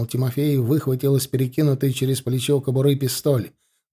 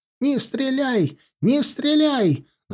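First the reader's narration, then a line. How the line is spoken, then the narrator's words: Shouting. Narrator (Russian): закричал он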